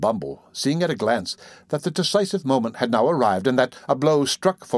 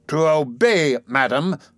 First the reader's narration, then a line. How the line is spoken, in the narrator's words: thundered Mr